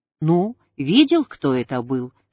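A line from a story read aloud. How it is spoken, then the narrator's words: Plain. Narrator (Russian): сказал мне духовник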